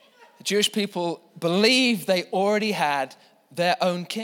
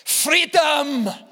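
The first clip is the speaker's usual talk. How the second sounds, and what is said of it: William Wallace style battle cry. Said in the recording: “William Wallace ... Except perhaps not in that accent.”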